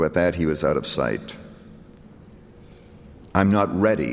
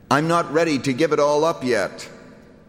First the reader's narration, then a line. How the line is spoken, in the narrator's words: he shouted back